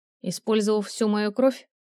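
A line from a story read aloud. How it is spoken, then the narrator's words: Grim question. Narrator (Russian): мрачно уточнила она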